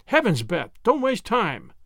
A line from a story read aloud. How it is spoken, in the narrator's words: exclaimed Wemple